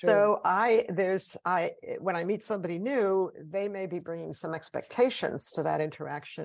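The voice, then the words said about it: Non-local accent. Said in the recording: “every time I open my mouth, I announce that I'm from away, just because of my accent.”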